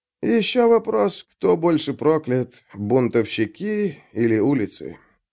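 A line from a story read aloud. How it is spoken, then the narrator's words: Grumbling mutter. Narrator (Russian): Буркнул Орсо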